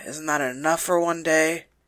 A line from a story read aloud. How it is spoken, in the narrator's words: He groaned